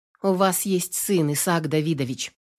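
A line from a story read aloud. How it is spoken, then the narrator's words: Quiet. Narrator (Russian): негромко сказала Наташа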